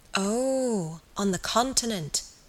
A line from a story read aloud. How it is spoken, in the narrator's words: murmured Aunt Julia